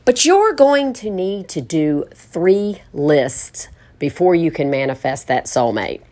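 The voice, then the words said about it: Speaker's own foreign accent. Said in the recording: “my accent sometimes, the words don't come out exactly right”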